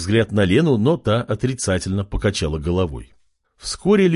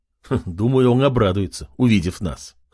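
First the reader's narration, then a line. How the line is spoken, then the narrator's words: Snorting, amused. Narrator (Russian): хмыкнул Артем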